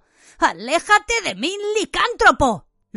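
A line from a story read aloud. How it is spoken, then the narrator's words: Exclaiming. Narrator (Spanish): Ron exclamó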